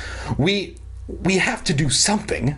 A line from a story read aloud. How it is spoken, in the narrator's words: Dan stammered